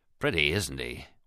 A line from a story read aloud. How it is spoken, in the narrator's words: Wisdom muttered